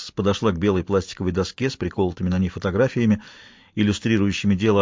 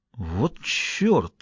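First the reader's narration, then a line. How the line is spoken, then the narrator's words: Exhaled. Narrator (Russian): выдохнул Селито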